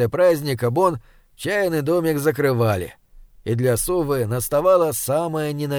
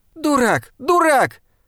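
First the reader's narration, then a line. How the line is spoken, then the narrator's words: Shouted. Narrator (Russian): закричала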